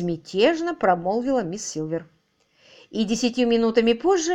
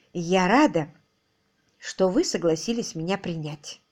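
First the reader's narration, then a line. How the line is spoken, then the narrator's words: Soft. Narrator (Russian): мягко проговорила она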